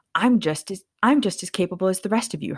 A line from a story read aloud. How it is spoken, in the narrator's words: Hermione snapped